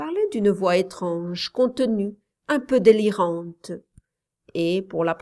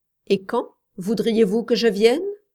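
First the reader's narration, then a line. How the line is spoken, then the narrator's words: Rather cold question. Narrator (French): demanda-t-elle assez froidement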